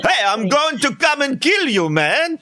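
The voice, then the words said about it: Failed Caribbean accent, New York mobster-like. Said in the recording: “I knew you'd do an accent... I tried to get the Caribbean accent... Oh, that's not Caribbean... you sounded like a New York Italian mobster”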